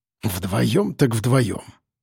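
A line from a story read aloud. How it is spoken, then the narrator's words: Displeased grumble. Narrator (Russian): пробурчал он, все-таки не слишком довольный таким раскладом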